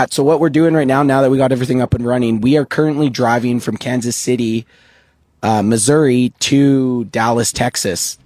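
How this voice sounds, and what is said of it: Hoarse, strained voice. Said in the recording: “I have lost my voice. ... I basically were screaming for 4 hours straight. So my voice is a little bit on the fritz.”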